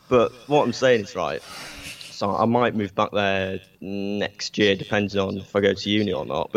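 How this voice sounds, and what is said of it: Manchester accent. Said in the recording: “as you can tell, I'm from Manchester originally ... I've kept my accent in, like, a weird way”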